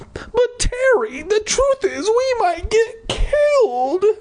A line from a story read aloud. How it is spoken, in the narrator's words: I cried